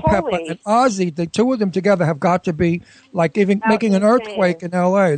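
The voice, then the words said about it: Brooklyn accent. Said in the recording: “my Brooklyn accent”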